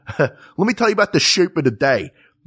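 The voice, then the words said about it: Strong Philly accent, S as SH. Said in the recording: “a really strong Philly accent ... That turning an S into an SH is like that is like a 10th level Philly accent.”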